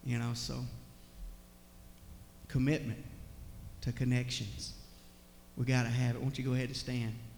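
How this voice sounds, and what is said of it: Choked up, tearful voice. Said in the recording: “I get all choked up ... I'm just a crybaby”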